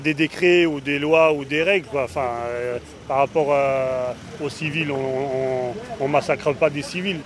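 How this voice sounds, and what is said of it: Strong typical French accent. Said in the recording (French): “Il a un accent bien franchouillard.”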